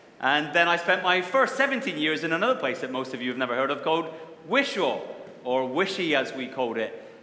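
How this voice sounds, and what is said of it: Mixed accent with Scottish roots. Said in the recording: “my mongrelized weird accent, I was born in Scotland”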